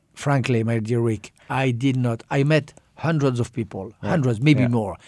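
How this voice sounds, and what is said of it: Strong French accent. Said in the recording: “you speak as French as you sound now ... you sound as French as can be”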